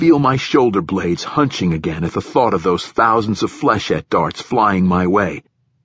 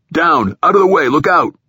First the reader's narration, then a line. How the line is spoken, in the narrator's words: the captain or one of the troopers shouting